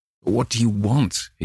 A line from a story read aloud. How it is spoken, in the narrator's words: he gasped